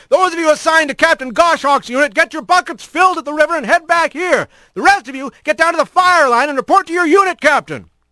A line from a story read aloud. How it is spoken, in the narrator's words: the big rat shouted